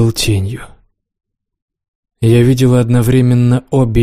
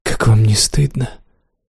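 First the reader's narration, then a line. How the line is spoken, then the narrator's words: Whisper. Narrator (Russian): прошептала я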